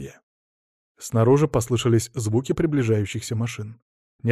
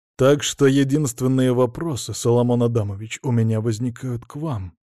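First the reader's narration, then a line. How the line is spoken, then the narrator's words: Steely voice. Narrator (Russian): стальным голосом произнес инспектор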